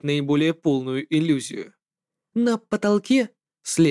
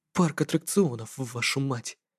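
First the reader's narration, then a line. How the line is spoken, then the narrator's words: Muttered. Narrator (Russian): пробормотал я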